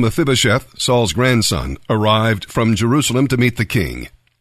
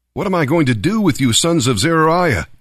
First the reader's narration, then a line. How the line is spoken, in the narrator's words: David exclaimed